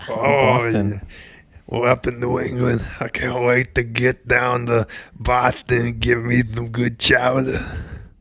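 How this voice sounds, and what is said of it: Boston accent. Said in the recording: “What accent is that? ... It's Boston. You know, I'm from Boston.”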